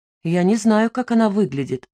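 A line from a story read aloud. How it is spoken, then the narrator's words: Calm reply. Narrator (Russian): спокойно ответил Дердекин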